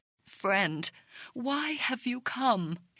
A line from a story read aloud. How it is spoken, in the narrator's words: His voice trembling with sorrow